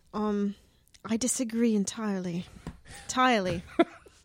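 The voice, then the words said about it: Put-on British accent. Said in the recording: “your British accent ... My British dialect ... my Harry Potter”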